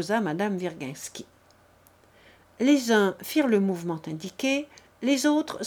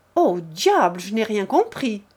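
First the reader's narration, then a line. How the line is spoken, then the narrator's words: Shouted. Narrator (French): cria un officier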